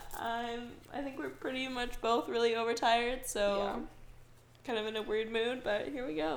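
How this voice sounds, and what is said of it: Sick-sounding voice. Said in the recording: “I am still sick as you can hear in my voice.”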